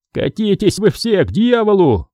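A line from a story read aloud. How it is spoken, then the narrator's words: Shouting. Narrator (Russian): выкрикнул Рейнер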